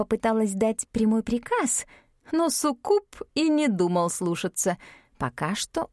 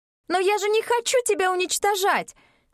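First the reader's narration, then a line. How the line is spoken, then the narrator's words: Wailing scream. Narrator (Russian): завопила Мин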